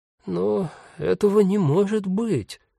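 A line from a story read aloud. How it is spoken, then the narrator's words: Confused. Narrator (Russian): растерянно добавил он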